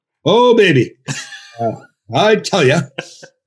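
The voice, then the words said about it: Bob Cole impression. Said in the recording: “my Bob Cole impression”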